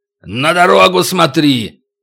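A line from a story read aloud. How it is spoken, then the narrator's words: Barked. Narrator (Russian): рявкнул Макото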